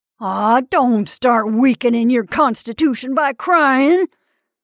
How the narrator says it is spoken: shouted the incensed husband

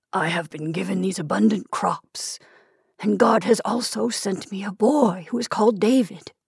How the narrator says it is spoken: he whispered to himself

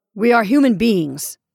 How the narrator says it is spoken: Franks said sharply

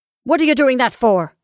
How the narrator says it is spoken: asked Caroline harshly

